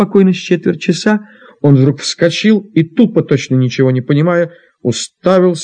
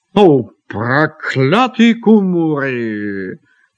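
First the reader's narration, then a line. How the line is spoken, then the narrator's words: Grumbling. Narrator (Russian): проворчал он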